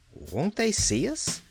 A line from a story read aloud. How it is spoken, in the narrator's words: she asked timidly